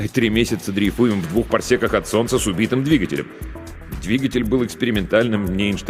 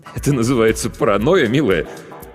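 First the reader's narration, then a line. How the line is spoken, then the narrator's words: Strained laugh. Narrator (Russian): Виктор натянуто рассмеялся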